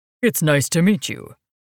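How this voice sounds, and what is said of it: Deep voice. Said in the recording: “a deep voice said.”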